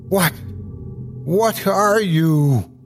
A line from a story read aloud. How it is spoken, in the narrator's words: stammered